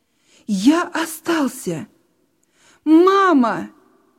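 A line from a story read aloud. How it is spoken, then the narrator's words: Shouted again. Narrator (Russian): Еще раз крикнул Петя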